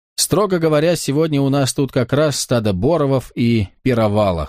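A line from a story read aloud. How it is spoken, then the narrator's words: Chuckling. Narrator (Russian): хохотнул Карл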